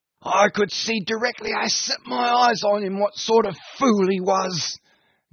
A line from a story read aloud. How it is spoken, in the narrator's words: gasped the dying Brown